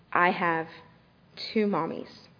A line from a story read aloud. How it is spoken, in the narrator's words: she said in a near whisper